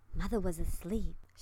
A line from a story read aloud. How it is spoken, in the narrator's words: she whispered as though her mother was still in danger of being wakened by any sound